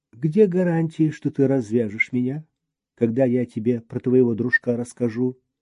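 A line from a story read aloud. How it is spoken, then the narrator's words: Almost calm question. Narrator (Russian): спросил почти спокойно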